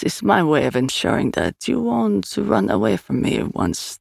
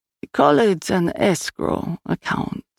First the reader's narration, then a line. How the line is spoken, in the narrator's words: he purred